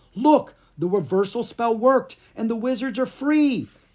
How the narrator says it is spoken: Clara cried

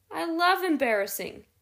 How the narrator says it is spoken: he laughed

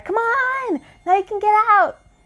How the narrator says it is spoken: the little girl cried

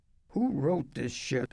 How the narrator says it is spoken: an actress wants to know, one of Beauty's ugly sisters, already into her sneering role

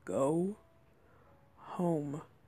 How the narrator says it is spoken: he said in such a deep voice you hardly noticed he had said words above his growl

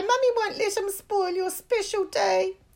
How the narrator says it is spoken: she cried

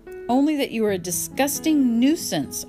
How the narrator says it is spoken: I snapped

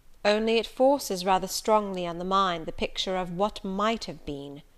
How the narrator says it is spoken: said Mr

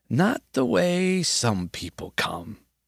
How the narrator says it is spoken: he croaked

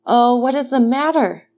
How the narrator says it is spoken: cried Dantes

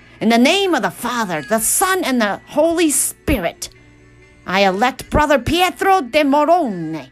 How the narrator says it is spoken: Latino, Mala, Branca, the aged and ill dean of the College of Cardinals cried out

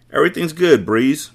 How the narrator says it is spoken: Monroe said

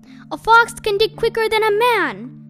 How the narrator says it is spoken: shouted Mr

